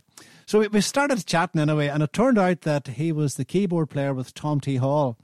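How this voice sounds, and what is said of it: Irish accent. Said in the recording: “the Irish accent came into play... I hear your Irish accent”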